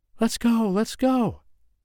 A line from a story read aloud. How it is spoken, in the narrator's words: she pleaded